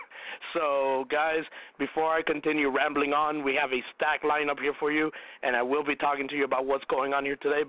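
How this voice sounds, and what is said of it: Hoarse, strained sick voice. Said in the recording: “pardon my voice a little bit here today, as my voice is completely out of it. I've been battling the flu”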